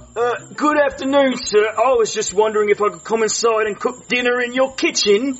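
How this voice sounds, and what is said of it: British accent. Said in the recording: “I love your accent. ... The UK.”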